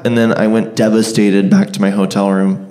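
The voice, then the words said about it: Voice cracking with emotion. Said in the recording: “My voice cracked.”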